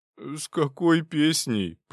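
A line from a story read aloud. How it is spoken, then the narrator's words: Moaning. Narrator (Russian): простонал Павел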